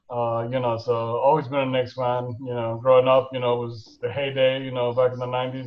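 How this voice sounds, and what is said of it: New York accent. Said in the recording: “I'm sure the accent's still there. You know, everyone tells me that, you know, obviously you got that New York accent, it never really goes away.”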